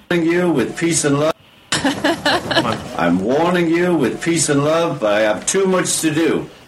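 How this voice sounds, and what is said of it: Liverpool accent, slightly slurred. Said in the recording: “He sounded a little bit drunk in that video... That Liverpool accent... I thought I detected a little bit of a slur.”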